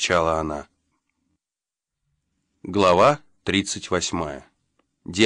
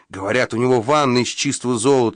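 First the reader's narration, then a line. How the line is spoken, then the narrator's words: Excited exclamation. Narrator (Russian): воскликнул один из грабителей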